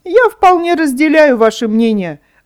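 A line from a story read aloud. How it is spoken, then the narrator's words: Wooden puppet answering, laughing. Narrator (Russian): ответил деревянный человечек и засмеялся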